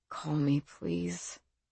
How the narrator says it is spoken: he whispered

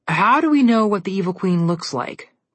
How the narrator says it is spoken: Connor asked

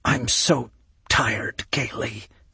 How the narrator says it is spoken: he whispered

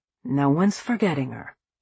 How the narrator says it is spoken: Richard said quietly

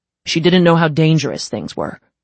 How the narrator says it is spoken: Dolph snapped

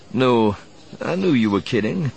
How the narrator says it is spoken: he said, chuckling

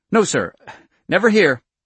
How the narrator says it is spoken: Louis agreed hastily

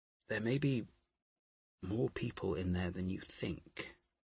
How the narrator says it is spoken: Harris said gently

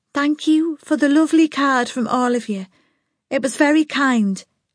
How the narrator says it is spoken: she said in her clear voice

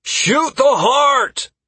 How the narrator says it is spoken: I shouted

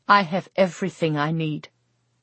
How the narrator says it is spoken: Irene said

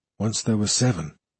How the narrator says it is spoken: he murmured

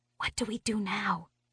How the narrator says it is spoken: I whisper hiss

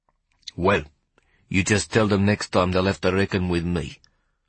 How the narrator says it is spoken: Hoppy growled

